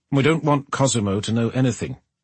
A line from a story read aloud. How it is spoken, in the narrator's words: Hugo said sharply